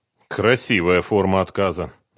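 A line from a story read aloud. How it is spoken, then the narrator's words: Gloomy remark. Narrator (Russian): мрачно заметил Давид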